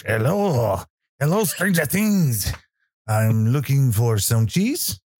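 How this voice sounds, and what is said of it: Bad put-on French accent. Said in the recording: “That's horrible. ... if you're French or in France and you find that accent offensive, then I apologize, but it's the best I can do.”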